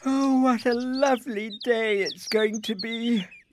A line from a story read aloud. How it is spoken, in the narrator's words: yawned Isabel